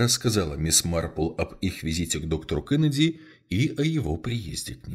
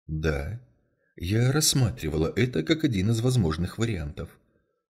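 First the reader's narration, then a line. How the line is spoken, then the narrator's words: Soft confirmation. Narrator (Russian): мягко подтвердила мисс Марпл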